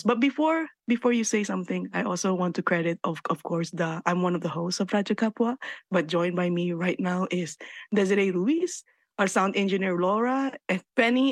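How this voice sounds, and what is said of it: Slightly raspy voice. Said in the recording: “also my voice was a little raspy, ... that amazing raspy introduction”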